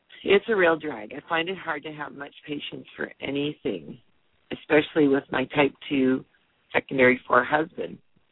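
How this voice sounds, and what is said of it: Slightly hoarse voice. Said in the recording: “my voice is a little bit hoarse this morning”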